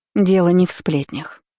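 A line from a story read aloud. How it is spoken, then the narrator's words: Sighing. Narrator (Russian): вздохнула Селеста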